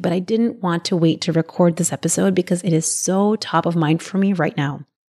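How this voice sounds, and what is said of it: Slightly raspy voice. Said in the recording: “my voice is a little bit raspy,”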